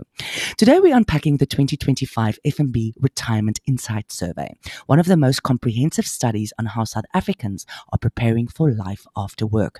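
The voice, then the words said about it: Husky, hoarse voice. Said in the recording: “I'm recovering from a terrible chest infection, so my voice is particularly husky this time around”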